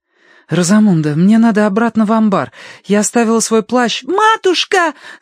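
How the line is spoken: Shouting. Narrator (Russian): закричала Агнес

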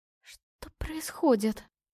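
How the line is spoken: Hoarse whisper. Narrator (Russian): прошептала хриплым голосом

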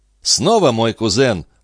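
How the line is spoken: Laughing. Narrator (Russian): рассмеялся Абатуччи

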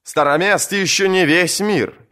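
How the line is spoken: Overly loud proclamation. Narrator (Russian): чересчур громко провозгласил Маландер

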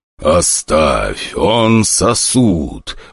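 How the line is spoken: Weary growl. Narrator (Russian): устало прорычал преследователь

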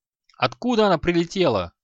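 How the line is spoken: Alarmed shout. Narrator (Russian): крикнул Аханит, тревожно озираясь

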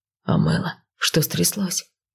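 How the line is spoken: Quiet question. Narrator (Russian): тихо спросил Кайл

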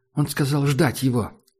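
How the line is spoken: Sighing. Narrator (Russian): Таджик вздохнул

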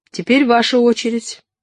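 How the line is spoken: Formal tone. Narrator (Russian): обратилась Лёля к Олегу официальным тоном

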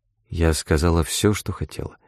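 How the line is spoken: Quiet. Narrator (Russian): прибавила она тихо

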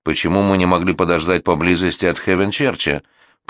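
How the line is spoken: Grumbling. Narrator (Russian): пробурчал он

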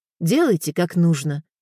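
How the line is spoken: Calm. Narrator (Russian): спокойно сказала Катерина

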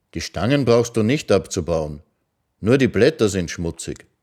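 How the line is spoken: Calm. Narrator (German): sagte er ruhig

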